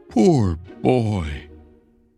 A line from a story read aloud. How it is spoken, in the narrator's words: cried again